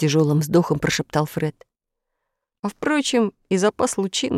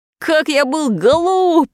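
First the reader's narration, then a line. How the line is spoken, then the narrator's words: Shout. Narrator (Russian): закричал Фред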